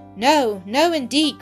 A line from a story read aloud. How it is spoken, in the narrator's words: cried Ada